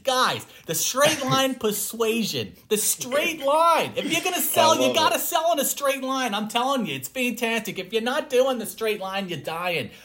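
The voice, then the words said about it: Imitates another person's voice. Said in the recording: “my Jordan Belfort impression.”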